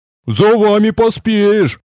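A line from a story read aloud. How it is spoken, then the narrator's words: Big man grumbling. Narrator (Russian): проворчал здоровяк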